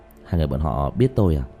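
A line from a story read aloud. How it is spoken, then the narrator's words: Lowered voice. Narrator (Vietnamese): Diệp Thiếu Dương nhỏ giọng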